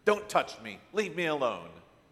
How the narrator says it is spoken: she snapped

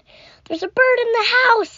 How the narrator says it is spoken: I yelled

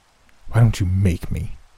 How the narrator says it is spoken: spat

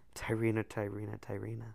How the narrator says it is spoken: I sighed

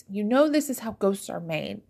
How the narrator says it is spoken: Tranquilla pleaded

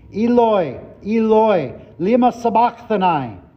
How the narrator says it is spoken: Jesus cried with a loud voice

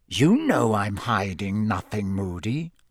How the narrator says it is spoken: he said in a soft and dangerous voice

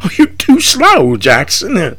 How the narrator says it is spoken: he laughs

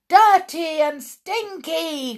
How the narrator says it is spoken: cried the audience, getting more and more worked up

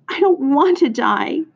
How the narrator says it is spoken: he moaned

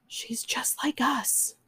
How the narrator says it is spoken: one whispered

